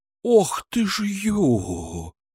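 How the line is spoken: Exhaled exclamation. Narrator (Russian): выдохнул

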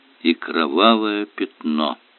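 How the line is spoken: Professor's mutter. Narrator (Russian): пробормотал профессор

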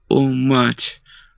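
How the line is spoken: Trembling, unhappy girl. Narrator (Russian): ответила дрожащим голосом несчастная девушка

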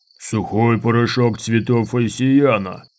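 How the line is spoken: Deep growl. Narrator (Russian): прорычал борец глубоким голосом

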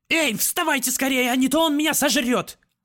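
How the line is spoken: Hungry frantic shrieking. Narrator (Russian): Крак проголодался и теперь истошно вопил на весь свет

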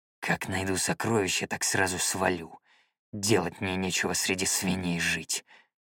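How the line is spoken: Growling. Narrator (Russian): прорычал Сигвард

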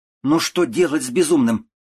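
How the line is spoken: Sharp scolding shout. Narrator (Russian): прикрикнула

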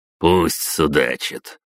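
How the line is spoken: Snorting official. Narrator (Russian): хмыкнул его главы Новосибирской губернии

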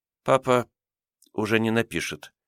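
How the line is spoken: Quiet reply. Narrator (Russian): тихо ответила Лиза

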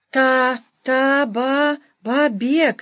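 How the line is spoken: Numb-tongued babbling. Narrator (Russian): залепетал несчастный одеревеневшим языком

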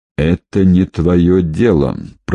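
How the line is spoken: Muttered through clenched teeth. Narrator (Russian): процедил сквозь зубы

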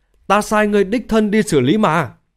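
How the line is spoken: Angry hoarse voice. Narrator (Vietnamese): Thanh Lang giận dữ khàn khàn nói

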